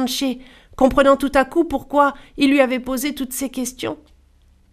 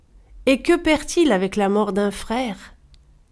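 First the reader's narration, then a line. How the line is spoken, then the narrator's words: Plain reply. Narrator (French): Giranché répondit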